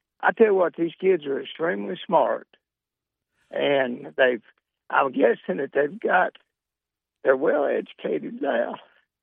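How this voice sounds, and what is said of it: Choked up, emotional voice. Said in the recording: “I get a little choked up talking about what I like.”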